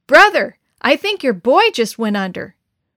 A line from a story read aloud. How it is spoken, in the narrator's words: Uncle Randy called out